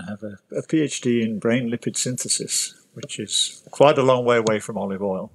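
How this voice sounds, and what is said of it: British accent. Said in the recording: “obviously you can tell from the accent, started off in the UK”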